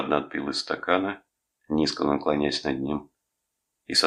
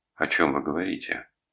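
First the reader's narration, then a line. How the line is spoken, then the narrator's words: Strained calm, betraying agitation. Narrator (Russian): Рудольф старался говорить спокойно, сдерживать себя, но он не мог скрыть охватившего его волнения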